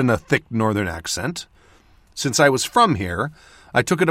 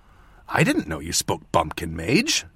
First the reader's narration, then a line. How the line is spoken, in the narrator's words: Dale whispered